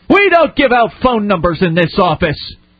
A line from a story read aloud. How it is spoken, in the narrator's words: She began yelling in a loud and rude voice